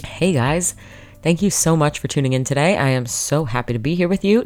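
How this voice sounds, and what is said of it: Congested, sick-sounding voice from cold. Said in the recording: “I sound a little sick ... I'm just here with a cold”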